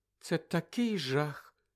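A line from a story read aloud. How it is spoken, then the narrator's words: Sad sigh. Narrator (Ukrainian): сумно зітхнула Джинні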